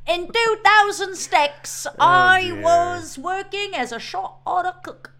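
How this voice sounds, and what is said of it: Mixed Southern and British put-on accent. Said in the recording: “You're like confusing your Southern and British accent... I don't even know what accent that is”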